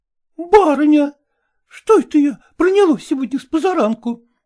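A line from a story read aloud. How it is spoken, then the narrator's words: Exclaimed. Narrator (Russian): воскликнула она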